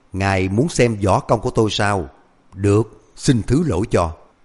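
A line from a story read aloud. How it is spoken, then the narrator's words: Cold reply. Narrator (Vietnamese): Hoàng Cố lạnh lùng đáp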